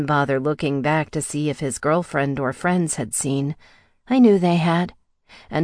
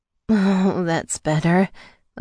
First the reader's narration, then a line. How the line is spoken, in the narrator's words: I moaned